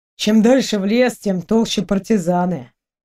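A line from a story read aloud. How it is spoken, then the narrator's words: Sad agreement. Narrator (Russian): грустно согласился с ним Дима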